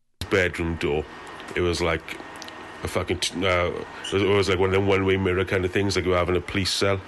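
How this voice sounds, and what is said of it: Strong regional British accent, hard to follow. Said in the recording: “I'm having a difficult time with the accent here ... I can understand this a little bit more clearly than I can the Scottish Glaswegian accent ... a little bit better with the Welsh one”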